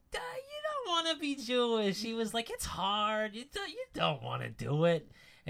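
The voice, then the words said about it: Imitates another person's voice. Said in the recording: “forgive me for doing any sort of impression, but I'm doing an impression.”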